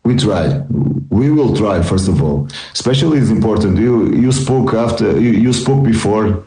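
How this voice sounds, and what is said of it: Non-native English accent. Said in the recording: “Sometimes my English isn't working, okay? It's really under construction ... I will try to work in my English and also in my accent.”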